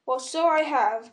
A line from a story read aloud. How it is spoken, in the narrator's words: cried Bilbo